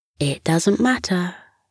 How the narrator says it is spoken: Scamper said kindly

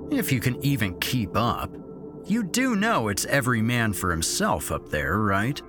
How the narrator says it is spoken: Derek had said, sneeringly

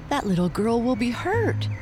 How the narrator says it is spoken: cried Lightfoot

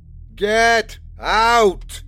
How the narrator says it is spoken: roared the old man, his voice like a storm wind

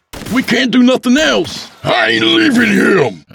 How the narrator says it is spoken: Abel screamed

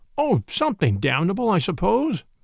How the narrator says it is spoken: replied Brown impatiently

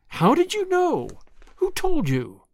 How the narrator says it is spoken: cried Anne disappointedly, vexed that her great revelation had been anticipated

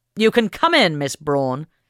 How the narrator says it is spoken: Henry Smith Fish shouted

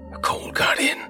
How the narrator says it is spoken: wept in a raspy voice, seemingly to himself

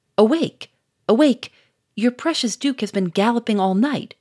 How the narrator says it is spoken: cried Doucet

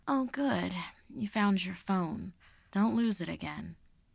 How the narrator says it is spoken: she sleepily remarked

